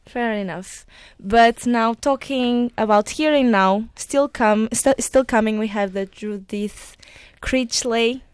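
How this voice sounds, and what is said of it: Portuguese accent. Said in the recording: “I'm Portuguese and it's the accent”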